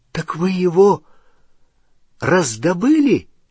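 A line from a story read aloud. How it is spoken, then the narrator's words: Exclaiming. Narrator (Russian): воскликнул Рон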